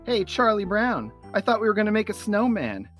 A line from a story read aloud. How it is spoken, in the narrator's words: In the distance, Shermie yells